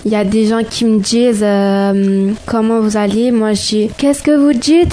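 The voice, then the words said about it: Put-on Marseille accent. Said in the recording (French): “L'accent marseillais.”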